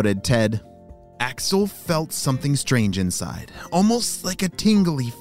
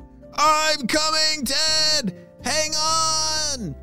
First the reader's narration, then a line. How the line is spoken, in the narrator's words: shouted Axel